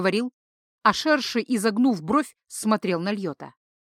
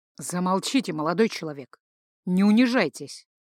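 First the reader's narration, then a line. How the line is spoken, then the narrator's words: Perfectly even commanding voice. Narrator (Russian): произнес он столь ровным голосом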